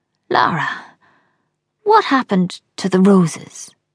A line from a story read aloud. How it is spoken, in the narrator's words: His voice is a croak